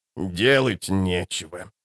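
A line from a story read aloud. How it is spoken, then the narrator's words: Old woman muttering. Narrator (Russian): пробормотала старая правдовидица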